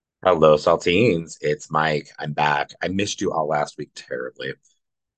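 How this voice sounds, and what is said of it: Congested, sick-sounding voice. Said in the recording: “as you might be able to hear from my voice, I think I've contracted a little bit of a cold”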